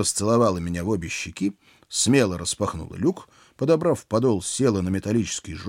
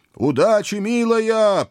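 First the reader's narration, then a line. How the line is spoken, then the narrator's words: Shouted after someone. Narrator (Russian): прокричал я ей вслед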